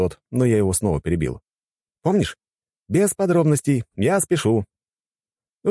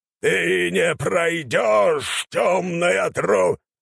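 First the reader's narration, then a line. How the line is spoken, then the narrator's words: Old man yelling. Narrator (Russian): заорал старик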